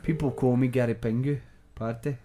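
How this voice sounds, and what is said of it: A badly done put-on accent. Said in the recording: “No, that's a terrible accent.”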